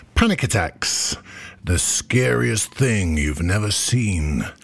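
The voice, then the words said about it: Dramatic movie trailer voice. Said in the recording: “in my best movie trailer voice.”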